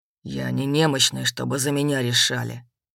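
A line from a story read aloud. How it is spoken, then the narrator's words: Gloomy, tense. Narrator (Russian): мрачно проговорил Рыжий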